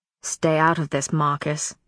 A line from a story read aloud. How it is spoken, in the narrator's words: his father snarled